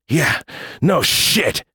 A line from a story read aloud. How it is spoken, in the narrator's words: he grunted